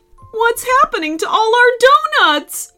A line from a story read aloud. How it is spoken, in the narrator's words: wailed the bakers